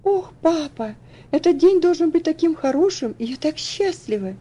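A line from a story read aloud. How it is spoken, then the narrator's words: Joyful exclamation. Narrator (Russian): Радостно воскликнула Элси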